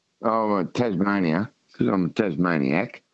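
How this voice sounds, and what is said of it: Thick Tasmanian Australian accent. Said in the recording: “I've got a thick Tasmanian accent, and I use it here.”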